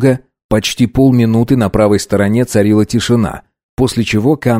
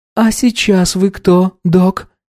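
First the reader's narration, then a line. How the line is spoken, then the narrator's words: Gentle woman asking. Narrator (Russian): мягко поинтересовалась женщина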